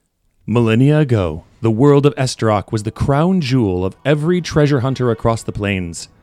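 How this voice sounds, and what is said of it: Epic trailer announcer voice. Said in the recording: “announcer voice ... it should double as the trailer ... Epic music swelling in the background”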